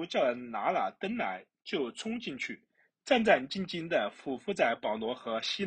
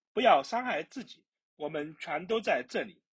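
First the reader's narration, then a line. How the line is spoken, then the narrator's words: Loud calling out. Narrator (Chinese): 保罗大声呼叫说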